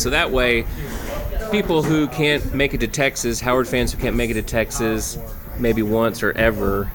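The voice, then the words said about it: Texas twang accent. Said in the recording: “you are a Texas native ... That's where my twang comes from.”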